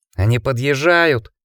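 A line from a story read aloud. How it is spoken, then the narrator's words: Almost shouting. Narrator (Russian): Сонни чуть не кричал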